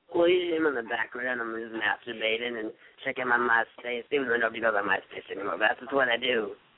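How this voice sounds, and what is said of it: Raspy smoker-like character voice. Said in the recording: “I love that raspy voice you have. You're like, it's like bleeding gums Murphy ... I'm like a 40-year-old smoker.”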